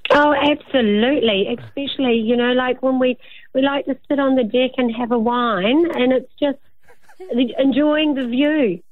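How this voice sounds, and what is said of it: New Zealand accent. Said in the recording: “who is a Kiwi... so we can listen to the accent... You can hear the sexiness straight off the bat”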